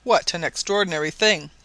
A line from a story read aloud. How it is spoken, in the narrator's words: he exclaimed